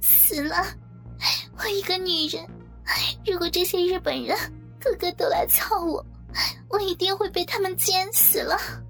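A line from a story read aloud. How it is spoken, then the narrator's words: Crying woman. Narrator (Chinese): 美华 哭着说道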